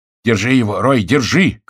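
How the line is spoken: Shouting. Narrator (Russian): крикнул Генрих

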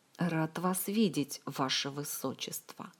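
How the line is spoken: Hissing. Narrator (Russian): прошипел он

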